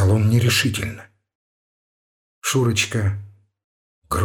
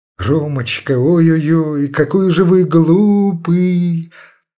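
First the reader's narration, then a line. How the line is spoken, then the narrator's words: Drawn-out thin childlike voice. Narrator (Russian): Протянула она знакомым Ромашову тоненьким детским голосом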